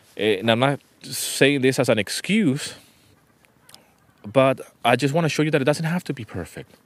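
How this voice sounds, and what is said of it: Spanish-accented English. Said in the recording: “I might pronounce certain words in a different way because of my accent. ... Spanish is my mother tongue. And I speak Greek.”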